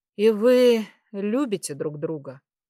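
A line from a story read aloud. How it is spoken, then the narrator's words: Sighing. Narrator (Russian): вздохнул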